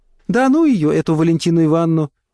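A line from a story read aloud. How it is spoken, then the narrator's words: Smiling through tears. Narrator (Russian): улыбалась сквозь слезы тетя Поля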